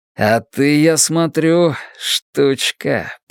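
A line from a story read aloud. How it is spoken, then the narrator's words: Grumbled. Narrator (Russian): пробурчал он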